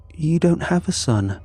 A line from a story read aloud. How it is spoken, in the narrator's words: said, her voice gentle